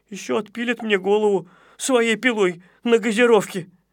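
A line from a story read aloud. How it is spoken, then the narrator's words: Whimpering. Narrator (Russian): захныкал Незнайка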